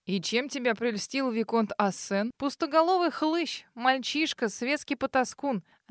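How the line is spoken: Scornful snort. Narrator (Russian): Она фыркнула

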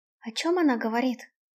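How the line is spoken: Whispered question. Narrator (Russian): шепотом спросила Альда

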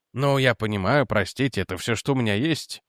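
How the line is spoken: Guilty mumble. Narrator (Russian): виновато пробормотал Реджи

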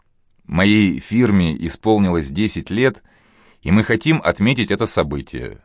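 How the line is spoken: Plain. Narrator (Russian): сказал Аркадий

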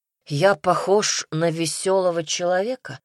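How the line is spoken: Weary sigh. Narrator (Russian): Устало вздохнул Казимир

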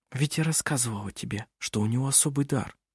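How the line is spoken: Whisper. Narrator (Russian): прошептала она

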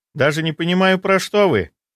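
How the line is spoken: Snide, smiling. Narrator (Russian): ехидно улыбнулась девушка

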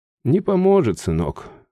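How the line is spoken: Sighing, mother. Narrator (Russian): вздохнула мать

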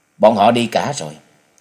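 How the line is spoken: Cold voice. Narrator (Vietnamese): hắn lại lạnh lùng thành tính, nên lên tiếng nói

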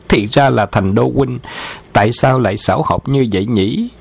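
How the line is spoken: Loud laughing. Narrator (Vietnamese): Khấu Trọng đã cười lớn

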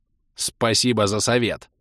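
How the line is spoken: Angry bark. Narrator (Russian): Зло рявкнул я

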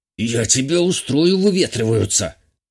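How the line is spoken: Old servant hissing. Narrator (Russian): прошипел старый слуга

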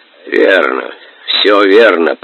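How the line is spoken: Hoarse croak. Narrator (Russian): прохрипел Субудай-богатур

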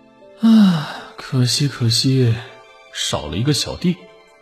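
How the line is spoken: Sighing, mumbling. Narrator (Chinese): 燕京华扼腕叹息，嘟嘟囔囔的

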